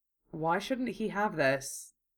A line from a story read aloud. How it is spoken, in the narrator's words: He asked in a low tone